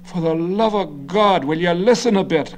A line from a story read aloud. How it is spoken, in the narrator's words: Garvey cried, his combative face reddening further